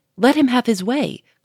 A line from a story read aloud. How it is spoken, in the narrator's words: cried another